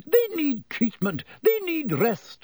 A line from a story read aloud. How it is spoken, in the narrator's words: sputtered Madame Pomfrey